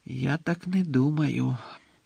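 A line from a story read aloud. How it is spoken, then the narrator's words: Quiet objection. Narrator (Ukrainian): тихо заперечив Дамблдор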